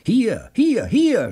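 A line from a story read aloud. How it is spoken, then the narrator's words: Excited shout. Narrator (German): schrie der aufgeregte Joe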